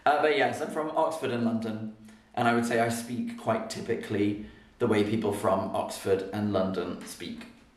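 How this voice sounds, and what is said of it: Posh English Received Pronunciation accent. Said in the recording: “Received Pronunciation is sort of seen as kind of standard formal English ... some people say I'm a bit posh ... my accent is a bit, I'll write that down as well, posh ... If I go to America, people think I have a very, very fancy accent.”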